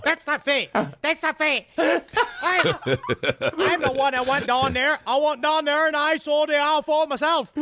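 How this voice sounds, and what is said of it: Strange Boston-like accent imitating Charles Halt. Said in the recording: “That's how he sounds. It's a very strange accent. ... Maybe he's Massachusetts. Perhaps he's a Bostonian.”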